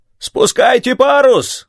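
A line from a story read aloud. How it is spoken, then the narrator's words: Shout from a ship. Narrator (Russian): крикнули с корабля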